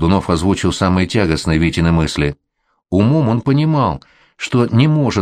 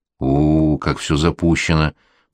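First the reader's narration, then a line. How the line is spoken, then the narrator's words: Drawled. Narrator (Russian): протянул Колдунов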